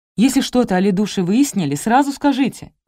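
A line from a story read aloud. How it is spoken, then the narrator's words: Exclamation. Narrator (Russian): воскликнул Федор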